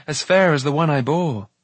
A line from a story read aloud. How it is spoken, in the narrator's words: he cried